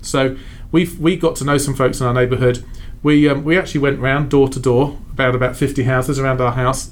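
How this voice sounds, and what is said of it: English accent. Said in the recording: “The English accent helped.”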